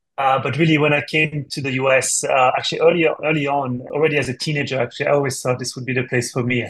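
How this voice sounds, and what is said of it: French accent. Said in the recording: “As you can tell from my accent, actually, I'm not from the States. I'm from France originally.”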